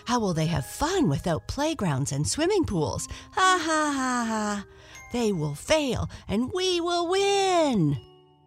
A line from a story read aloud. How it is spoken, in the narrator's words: All the micro creeps laughed with an evil cackle